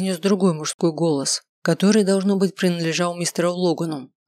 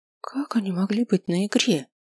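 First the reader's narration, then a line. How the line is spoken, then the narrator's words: Whispered question. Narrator (Russian): шепотом спросил я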